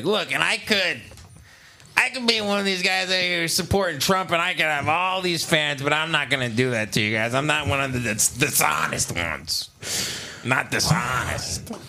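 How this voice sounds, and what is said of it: Imitates another person's voice. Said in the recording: “doing an Opie impression”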